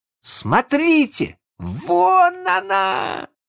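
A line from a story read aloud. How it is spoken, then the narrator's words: Shouting bully. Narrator (Russian): закричал задира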